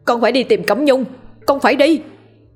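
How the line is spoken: Loud shout. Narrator (Vietnamese): Cậu hét lớn

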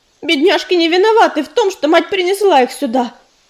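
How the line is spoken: Angry addition. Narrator (Russian): Сердито прибавила она

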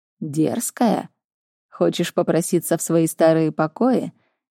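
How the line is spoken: Mocking. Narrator (Russian): насмешливо сказал он

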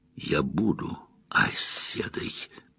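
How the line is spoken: Quiet. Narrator (Russian): тихо произнесла Илэйн

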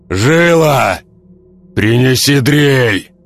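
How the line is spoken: Shouted. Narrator (Russian): Крикнул хвост

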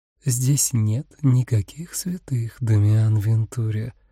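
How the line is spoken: Seductive whisper. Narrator (Russian): соблазнительно прошептала она ему в губы

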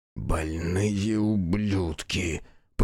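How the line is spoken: Muttering. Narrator (Russian): пробормотала Аяшики

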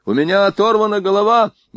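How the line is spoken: Terrified scream. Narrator (Russian): Шульц был контужен воздухом и в ужасе закричал

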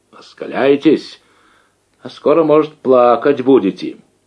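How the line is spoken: Angry shout, voice breaking. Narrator (Russian): крикнул срывающимся от злости голосом

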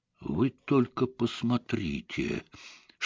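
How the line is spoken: Whisper. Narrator (Russian): шепнул Айшем

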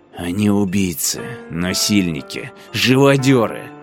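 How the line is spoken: Hissed through teeth. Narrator (Russian): прошипел Шаор сквозь зубы

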